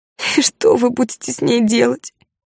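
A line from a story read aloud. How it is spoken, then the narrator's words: Tearful question. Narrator (Russian): Сквозь слезы спросила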